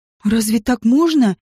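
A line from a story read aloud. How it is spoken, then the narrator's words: Exhaled. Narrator (Russian): выдохнула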